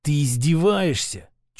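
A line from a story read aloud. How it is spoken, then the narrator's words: Snake-like hiss. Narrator (Russian): чуть ли не змеей прошипел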